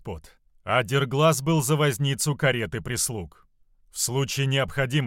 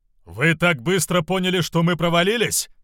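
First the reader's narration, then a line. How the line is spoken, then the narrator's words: Shouting to be heard. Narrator (Russian): прокричал Равус, дабы Моро его услышал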